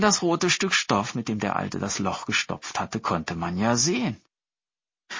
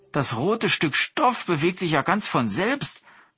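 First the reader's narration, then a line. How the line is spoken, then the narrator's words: Merchant calling out. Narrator (German): rief einer der Händler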